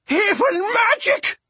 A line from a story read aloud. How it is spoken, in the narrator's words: his mother shrieked